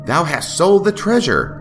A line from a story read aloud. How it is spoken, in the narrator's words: Pylon cried fiercely